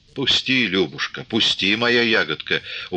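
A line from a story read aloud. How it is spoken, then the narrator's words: Pleading with a smile. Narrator (Russian): упрашивал Григорий, улыбаясь в черный поникший ус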